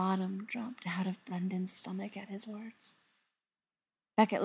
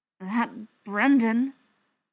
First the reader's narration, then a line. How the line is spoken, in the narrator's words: Beckett said through gritted teeth